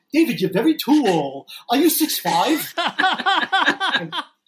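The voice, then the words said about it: Old Brooklyn Jewish mom accent. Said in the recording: “in his old Brooklyn Jewish mom accent”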